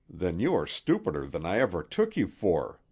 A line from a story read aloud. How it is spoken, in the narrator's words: growled the magnate